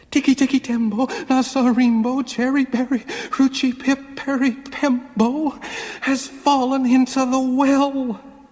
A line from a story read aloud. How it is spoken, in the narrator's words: he panted